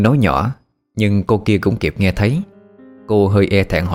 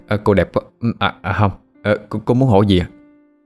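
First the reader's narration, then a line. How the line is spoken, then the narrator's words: Dazed stammering. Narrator (Vietnamese): Minh mới hoàn hồn trở lại mà lắp bắp nói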